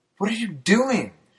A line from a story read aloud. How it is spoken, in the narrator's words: she screamed frantically, trying to get up from underneath me